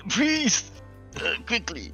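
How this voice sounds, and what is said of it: Pained shouting. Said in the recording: “You're in so much pain that you're shouting for the player. You're shouting for the actual player.”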